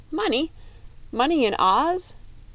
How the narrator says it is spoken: cried the Tin Woodman

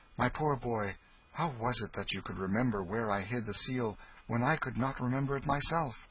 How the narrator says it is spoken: The king said kindly

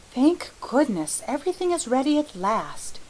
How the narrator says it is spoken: breathed Felicity devoutly

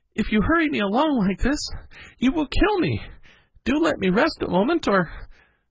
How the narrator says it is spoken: at last he gasped out

